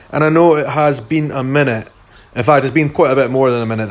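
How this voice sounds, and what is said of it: Scottish accent. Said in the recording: “in a Scottish accent”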